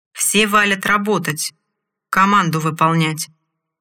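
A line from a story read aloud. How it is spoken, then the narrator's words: Orc's commanding shout. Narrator (Russian): командным голосом выкрикнул орк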